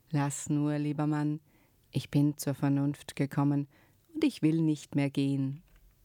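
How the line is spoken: Suddenly calm. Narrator (German): war sie plötzlich ganz ruhig und sagte

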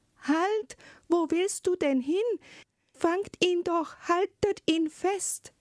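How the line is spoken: Sudden call. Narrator (German): rief plötzlich die Zarin

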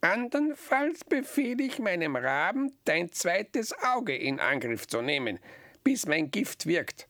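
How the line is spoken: Witch croaking. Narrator (German): krächzte die Hexe

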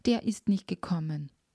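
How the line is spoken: Wailing. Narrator (German): jammerte er

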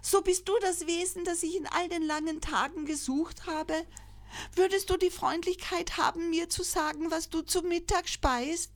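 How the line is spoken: Joyful calling. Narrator (German): rief freudig

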